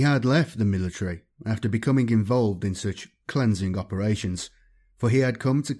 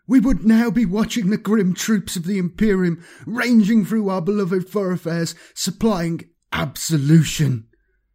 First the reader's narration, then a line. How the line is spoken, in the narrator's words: he shrieked